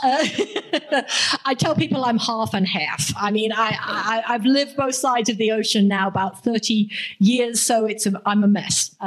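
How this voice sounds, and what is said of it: Southern English accent, slight American twang. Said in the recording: “I'm from England, originally down south. I know I have a slight American twang now. ... It's kind of hard to place.”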